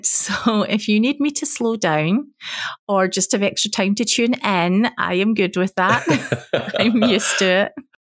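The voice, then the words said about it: Strong non-American accent. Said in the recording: “quite a few people, because we've been doing some more shows over in America recently, struggle to understand the accent.”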